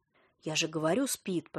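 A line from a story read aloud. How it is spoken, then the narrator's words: Whisper. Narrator (Russian): прошептал Исаев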